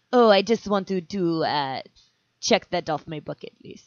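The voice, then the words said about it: Put-on Russian accent. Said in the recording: “I can actually do a decent Russian accent.”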